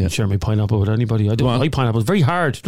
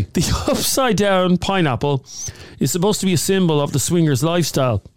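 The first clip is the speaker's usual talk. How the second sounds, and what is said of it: Polished newsreader voice. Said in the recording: “in my polished ... newsreader voice ... I'm reading this in my polished voice”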